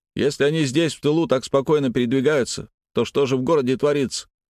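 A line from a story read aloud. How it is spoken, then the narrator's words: Loud questioning. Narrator (Russian): громко спросил сам себя и остальных Алексей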